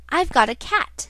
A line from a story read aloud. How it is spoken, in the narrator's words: cried the boy